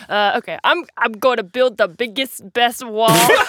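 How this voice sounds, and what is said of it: Imitates another person's voice. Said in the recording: “I can't do an impression of him.”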